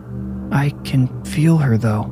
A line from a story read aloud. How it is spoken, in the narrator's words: Roland whispered, but he sounded unsure